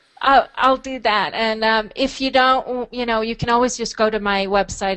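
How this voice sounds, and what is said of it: Swedish accent. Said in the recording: “your Swedish accent”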